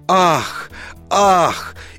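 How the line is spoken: Group gasping in unison. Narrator (Russian): Стол дружно выдохнул

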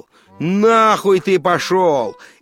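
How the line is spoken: Shouted. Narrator (Russian): крикнул

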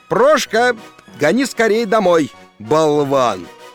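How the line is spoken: Shouting. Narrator (Russian): крикнул

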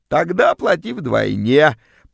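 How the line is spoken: Creaky female voice. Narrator (Russian): проскрипела вымогательница

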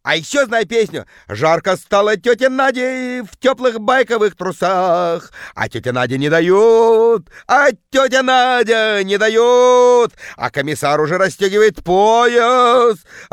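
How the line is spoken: Woman bellowing, deep bass. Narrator (Russian): орала тетка жутким басом

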